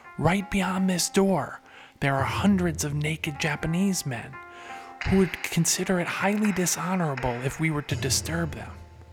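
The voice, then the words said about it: Whispering. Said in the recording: “Why is he whispering, you ask?”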